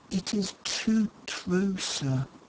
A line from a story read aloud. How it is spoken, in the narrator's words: sighed Smith